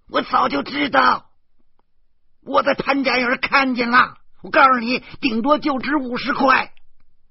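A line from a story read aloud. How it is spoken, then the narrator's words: Wife yelling into ear. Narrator (Chinese): 我老婆对着我的耳孔吼道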